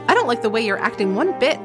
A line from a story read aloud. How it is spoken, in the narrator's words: snapped